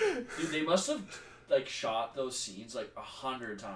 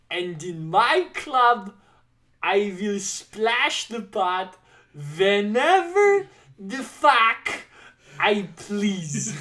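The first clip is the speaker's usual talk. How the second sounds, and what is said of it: Bad put-on Russian accent. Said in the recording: “here's another bad uh, bad Russian accent for you.”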